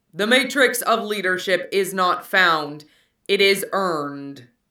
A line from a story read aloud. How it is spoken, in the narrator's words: a third Prime intoned